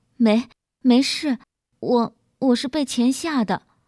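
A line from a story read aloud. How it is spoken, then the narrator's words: Shocked, stammering. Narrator (Chinese): 小菊好半天才结结巴巴地说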